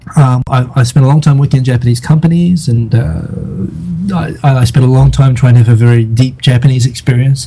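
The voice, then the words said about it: New Zealand, Australian, South African hybrid accent. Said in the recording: “I'm originally from New Zealand ... made my accent turn into like a South African, Australian, New Zealand hybrid”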